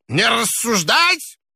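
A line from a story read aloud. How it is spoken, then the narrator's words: Old person's thin shout. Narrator (Russian): Еще раз крикнул старческий голосок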